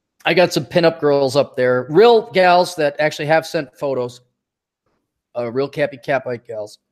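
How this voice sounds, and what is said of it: Strained, fading voice. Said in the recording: “losing my voice.”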